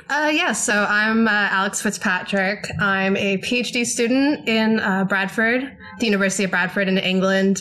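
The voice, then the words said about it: American accent. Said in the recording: “As you can tell by my accent, I'm American.”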